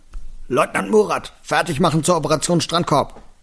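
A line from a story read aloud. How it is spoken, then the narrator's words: Boy bellowing back. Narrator (German): Der dunklere Junge brüllte zurück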